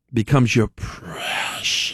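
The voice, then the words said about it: Gollum character voice. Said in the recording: “do my Gollum impersonation.”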